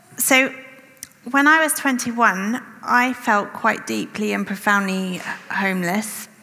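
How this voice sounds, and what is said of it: English accent. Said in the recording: “My accent was pleasingly English”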